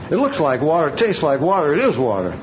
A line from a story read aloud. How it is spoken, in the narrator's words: Angrily, the governor shouts